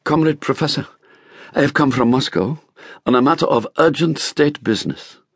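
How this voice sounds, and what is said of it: Pronounced Russian accent. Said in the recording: “She spoke fluent Vietnamese with a pronounced Russian accent.”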